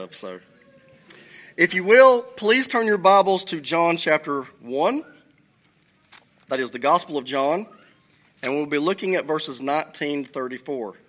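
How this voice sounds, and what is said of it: Thick accent. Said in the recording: “the thickness of my accent, which I'm very proud of”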